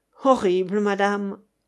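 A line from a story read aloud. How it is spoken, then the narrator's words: Sinister sneer. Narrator (French): ricana l'autre, sinistre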